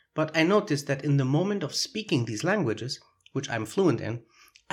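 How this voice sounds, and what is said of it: Foreign accent in English. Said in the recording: “I am aware that I have a foreign accent, both when speaking English and Spanish. There is no denying it.”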